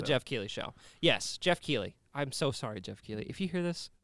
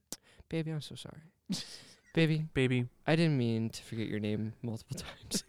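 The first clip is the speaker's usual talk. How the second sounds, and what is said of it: Whispering. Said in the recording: “let me whisper in you for a minute”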